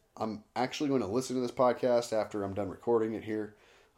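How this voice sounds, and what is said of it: Hoarse, strained voice. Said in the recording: “I hope my voice gets better ... see how bad my voice sounds ... thrashed voice”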